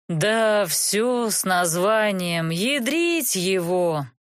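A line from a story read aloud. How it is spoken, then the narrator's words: Miserable man's groan. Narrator (Russian): простонал несчастный мужик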